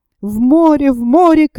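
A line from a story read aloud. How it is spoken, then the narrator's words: Young man shouting. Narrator (Russian): крикнул молодой капитан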